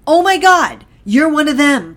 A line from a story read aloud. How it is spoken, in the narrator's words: She exclaimed